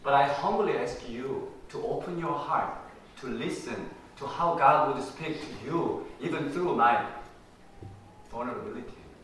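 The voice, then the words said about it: Korean accent in English. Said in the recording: “I have been speaking in Korean as my mother tongue ... I speak English as a second language ... my strange accent and intonation, maybe pronunciation”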